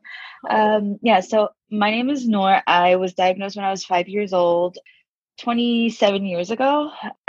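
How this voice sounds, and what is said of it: Sleepy, just-woke-up voice. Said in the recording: “my voice sounds like I just woke up because I just woke up”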